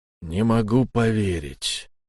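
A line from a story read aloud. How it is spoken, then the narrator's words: Glum. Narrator (Russian): уныло проговорил человек, которого я и не заметил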